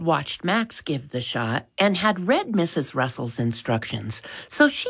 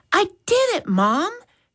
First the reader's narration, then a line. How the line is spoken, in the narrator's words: she exclaimed with a pleased look